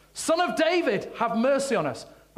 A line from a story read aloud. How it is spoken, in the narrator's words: two blind men followed along behind him, shouting